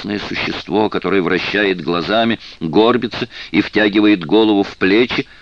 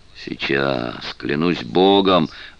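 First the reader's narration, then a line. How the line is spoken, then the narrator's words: Breathed out. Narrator (Russian): выдохнуло оно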